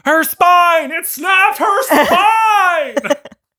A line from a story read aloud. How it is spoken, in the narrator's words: Edward screaming